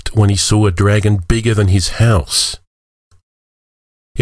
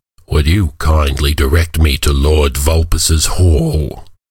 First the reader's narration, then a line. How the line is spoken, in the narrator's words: the dragon rumbled in a voice that might have sounded haughty if it weren't accompanied by a deep grumble from the dragon's belly